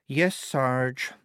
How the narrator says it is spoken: she said wearily

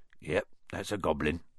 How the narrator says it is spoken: said Hagrid quietly

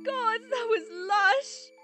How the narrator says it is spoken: Christy laughed her machine gun-like laugh

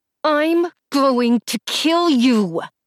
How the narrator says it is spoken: I said through clenched teeth

